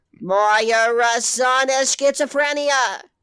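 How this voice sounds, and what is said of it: Attempted Australian accent slipping into Boston. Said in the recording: “I have such a perfect Boston accent that every time I try to do Australian, he goes back to Boston.”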